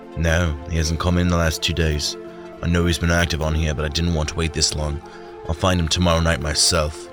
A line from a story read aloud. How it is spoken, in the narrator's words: the man sighed